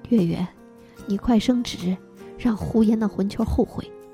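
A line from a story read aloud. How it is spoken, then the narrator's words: Old woman muttering. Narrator (Chinese): 老太太嘀咕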